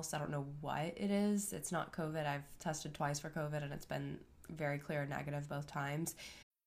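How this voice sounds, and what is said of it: Voice sounds a little sick. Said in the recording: “I sound a little sick ... I am on like day four of having strep”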